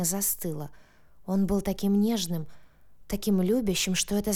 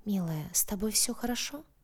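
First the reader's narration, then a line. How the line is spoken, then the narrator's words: Tender whisper. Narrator (Russian): он ласково прошептал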